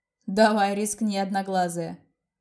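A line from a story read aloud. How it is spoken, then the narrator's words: Smirking snort. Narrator (Russian): хмыкнул он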